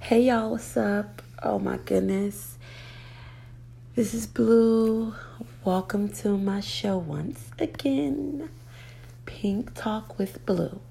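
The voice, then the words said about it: Raspy voice. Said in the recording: “excuse my voice, okay? I know it's a little raspy”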